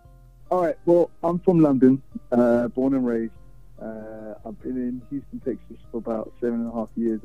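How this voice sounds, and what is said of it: Slight non-Texan British accent. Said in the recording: “a little bit of an accent there. You know, it doesn't sound like that native Texas accent”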